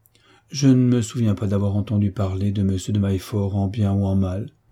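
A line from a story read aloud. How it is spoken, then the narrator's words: Plain. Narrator (French): répondit l'orpheline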